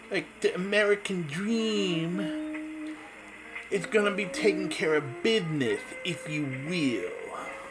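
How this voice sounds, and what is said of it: Imitates another person's voice. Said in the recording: “I can't do a very good Dusty Rhodes impersonation ... he had that jive way of talking”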